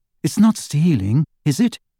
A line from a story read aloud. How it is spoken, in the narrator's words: asked Hermione in a troubled voice